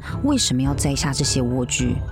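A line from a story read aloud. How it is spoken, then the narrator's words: Cold question. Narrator (Chinese): 他冷冷的问亚伦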